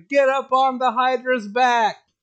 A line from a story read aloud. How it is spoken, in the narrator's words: shouting